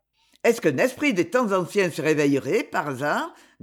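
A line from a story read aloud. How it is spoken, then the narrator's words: Growling. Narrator (French): grondait-il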